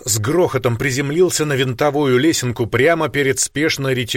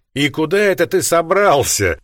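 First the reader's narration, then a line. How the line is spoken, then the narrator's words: Mocking tone. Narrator (Russian): проговорил я насмешливо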